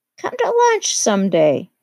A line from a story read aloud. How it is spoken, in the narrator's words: he suggested